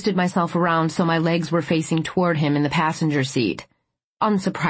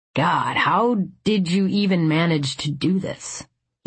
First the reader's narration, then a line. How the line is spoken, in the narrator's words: he muttered